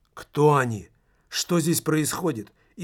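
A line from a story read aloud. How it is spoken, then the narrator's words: Frightened mumble. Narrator (Russian): испуганно пробормотал Стефанс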